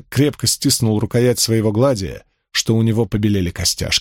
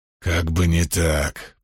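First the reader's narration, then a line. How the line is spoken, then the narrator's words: Hissing. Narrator (Russian): прошипел Крикс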